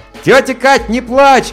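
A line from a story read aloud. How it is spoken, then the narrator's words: Shouted. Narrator (Russian): крикнул я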